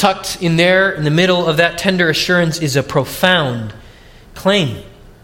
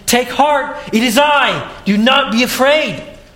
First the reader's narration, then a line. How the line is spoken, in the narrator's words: he offers assurance and comfort, shouting above the wind